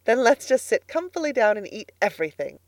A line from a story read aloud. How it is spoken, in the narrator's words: said Miss Lavendar happily